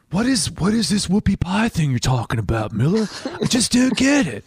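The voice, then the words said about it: Put-on accent, pretty good. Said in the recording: “in exactly that accent. ... That was pretty good.”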